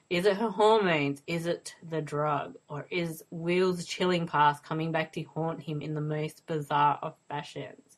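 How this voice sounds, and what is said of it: Speaks with a distinctive accent. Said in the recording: “it's got to be the accent ... it was perfect ... I want your accent.”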